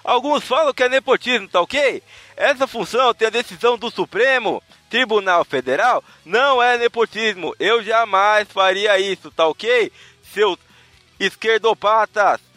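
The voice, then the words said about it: Imitates another person's voice. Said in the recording (Portuguese): “Só quis ler com a voz dele ... parecia que você tava tendo um AVC, não parecia que você tava imitando”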